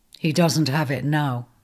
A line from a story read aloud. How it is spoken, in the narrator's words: he said flatly